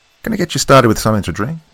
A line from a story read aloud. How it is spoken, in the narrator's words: asked cheerfully